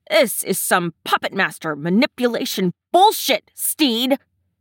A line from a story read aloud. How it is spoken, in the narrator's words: he hisses